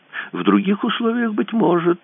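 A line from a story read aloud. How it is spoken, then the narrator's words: Sighing. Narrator (Russian): вздохнул капитан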